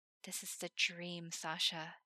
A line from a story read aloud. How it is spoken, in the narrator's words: Himmel whispered